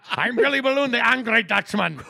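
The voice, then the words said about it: Angry put-on Dutch accent. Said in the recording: “my only Dutch impression is angry”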